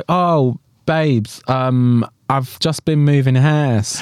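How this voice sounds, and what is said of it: Imitated London accent. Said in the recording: “that was the worst impression of Bimini's London accent... Actually, it's quite good, actually.”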